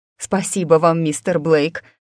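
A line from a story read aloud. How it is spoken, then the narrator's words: Sobbing woman. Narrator (Russian): всхлипнула миссис Найджел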